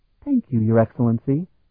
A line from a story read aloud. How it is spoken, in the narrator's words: Melodir said sweetly